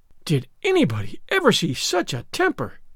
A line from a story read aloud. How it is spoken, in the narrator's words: exclaimed the horrified Mrs